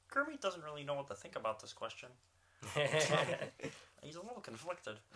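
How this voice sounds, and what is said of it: Bad Kermit the Frog voice. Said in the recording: “doing the bad voice.”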